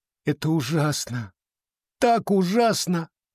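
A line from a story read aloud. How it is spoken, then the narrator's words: Sobbing. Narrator (Russian): всхлипнула она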